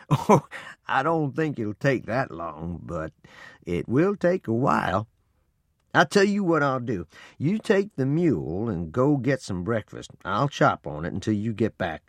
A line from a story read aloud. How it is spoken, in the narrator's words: Papa laughed and said